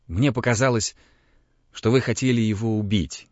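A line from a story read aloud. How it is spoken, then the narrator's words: Mumbling. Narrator (Russian): бормотал он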